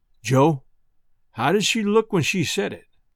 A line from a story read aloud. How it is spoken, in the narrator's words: says to me in a thick kind of voice